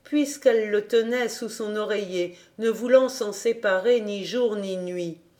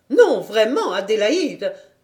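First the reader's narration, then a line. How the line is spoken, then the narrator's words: Reproachful. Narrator (French): dit-elle d'un ton de reproche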